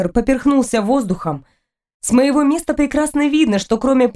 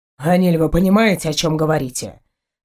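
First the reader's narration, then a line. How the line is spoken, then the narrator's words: Stern husband. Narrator (Russian): строго произносит муж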